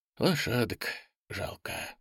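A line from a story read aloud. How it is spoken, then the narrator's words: Sighing. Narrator (Russian): вздохнул Андрей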